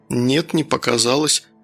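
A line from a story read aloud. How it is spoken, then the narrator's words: Calm. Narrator (Russian): спокойно ответил Данил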